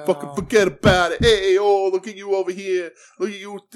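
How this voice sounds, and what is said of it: Exaggerated New York mafia accent. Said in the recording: “QT has a New York accent. ... He's like doing like a mafia thing”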